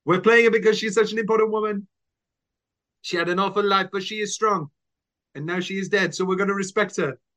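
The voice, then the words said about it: Put-on Spanish accent, not convincing. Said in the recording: “your Spanish accent could use some work ... My Spanish accent is very good.”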